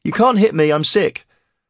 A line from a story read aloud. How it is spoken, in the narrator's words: Aaron cried